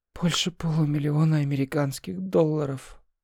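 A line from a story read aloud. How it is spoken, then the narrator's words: Sighing. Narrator (Russian): вздохнул Вечнов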